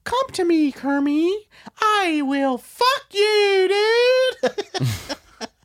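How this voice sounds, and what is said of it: Miss Piggy impression. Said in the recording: “Do a good impression of her.”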